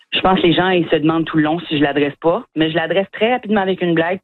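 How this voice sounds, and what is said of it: Acadian French accent. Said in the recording (French): “mon accent ... humoristes acadiens”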